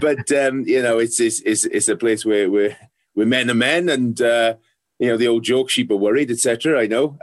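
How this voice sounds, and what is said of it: South Wales valleys Welsh accent. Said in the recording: “I grew up in, in uh, South Wales valleys. Uh, I'm not sure if I've given it away already with an accent.”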